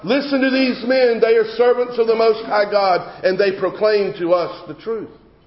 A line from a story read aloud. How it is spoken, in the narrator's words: she's blurting out